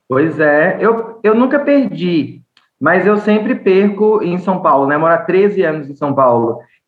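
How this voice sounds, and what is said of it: Bahian Brazilian Portuguese accent. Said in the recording (Portuguese): “aqui na Bahia duas semanas, o sotaque já voltou inteiro ... aquele acento mesmo, sabe, do sotaque”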